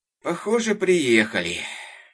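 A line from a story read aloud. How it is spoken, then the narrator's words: Groaning father. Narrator (Russian): простонал папа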